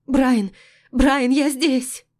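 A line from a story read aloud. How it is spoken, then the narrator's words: Sobbing cry. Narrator (Russian): Голос рыдающей Кассандры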